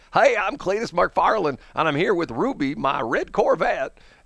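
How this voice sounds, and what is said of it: Exaggerated Southern twang. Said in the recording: “he does a terrible Southern accent ... he's really twanging it”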